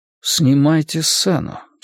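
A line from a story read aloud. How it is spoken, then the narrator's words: Calm. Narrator (Russian): спокойно сказал Иисус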